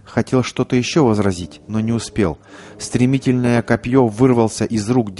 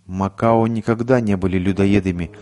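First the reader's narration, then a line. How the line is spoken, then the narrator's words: Plain. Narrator (Russian): ответил индеец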